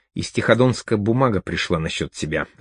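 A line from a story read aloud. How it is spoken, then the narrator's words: Whispered right into ear. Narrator (Russian): зашептал он в самое ухо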